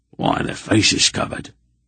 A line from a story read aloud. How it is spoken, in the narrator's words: Durnick whispered